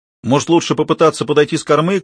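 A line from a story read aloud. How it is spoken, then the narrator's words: Shout. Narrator (Russian): крикнул он Кармоди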